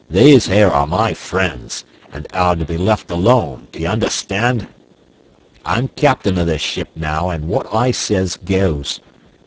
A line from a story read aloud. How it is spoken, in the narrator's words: With a loud roar, Black Michael cried